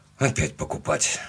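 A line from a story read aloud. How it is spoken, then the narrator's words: Grumbled. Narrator (Russian): буркнул я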